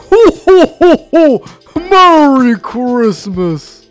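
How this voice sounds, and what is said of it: Santa Claus impression. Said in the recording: “your best Santa impression”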